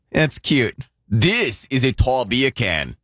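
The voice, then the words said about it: Poor put-on Australian accent. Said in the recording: “that terrible Aussie accent”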